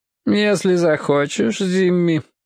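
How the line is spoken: Lazy drawl. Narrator (Russian): лениво вымолвил он

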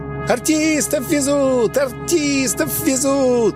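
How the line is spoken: Boys shouting. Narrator (Russian): Босоногие мальчишки закричали, как жирный бюргер

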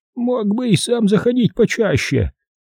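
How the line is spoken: Trembling voice. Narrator (Russian): заметила она дрогнувшим голосом

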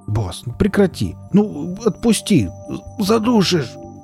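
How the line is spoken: Choked wheeze. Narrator (Russian): Последнее слово он прохрипел, выпучив глаза, потому что Велес действительно его чуть не задушил

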